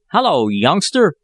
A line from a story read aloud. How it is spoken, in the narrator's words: cried Jack Martin